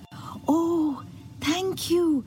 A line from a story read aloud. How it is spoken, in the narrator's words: gasped the shell